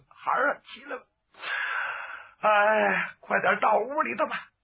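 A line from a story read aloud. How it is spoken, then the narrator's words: After weeping, calmed. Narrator (Chinese): 干妈妈哭罢多时，止住悲声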